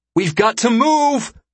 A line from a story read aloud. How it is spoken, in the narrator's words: Iko shouts to the rest of the team